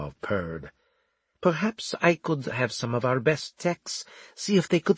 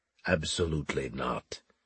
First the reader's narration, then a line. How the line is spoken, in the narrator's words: Zler said stiffly